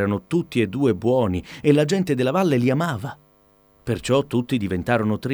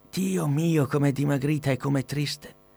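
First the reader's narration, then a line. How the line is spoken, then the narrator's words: Old woman sighing. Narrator (Italian): sospirò la vecchietta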